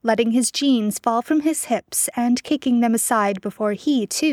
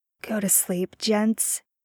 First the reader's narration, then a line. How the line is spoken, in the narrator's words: Jared murmured, softly